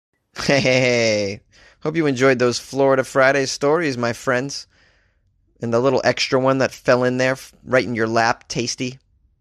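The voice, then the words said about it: Thick Boston accent. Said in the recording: “I got a very thick Boston accent tonight, huh? I think it's because I'm tired.”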